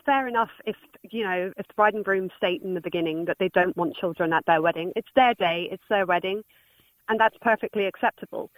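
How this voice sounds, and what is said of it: English accent. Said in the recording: “I do detect an English accent ... I just never lost my accent.”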